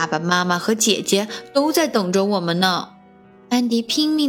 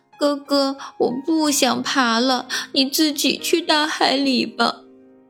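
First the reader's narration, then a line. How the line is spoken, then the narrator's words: Aggrieved child crying. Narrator (Chinese): 安迪委屈地哭了起来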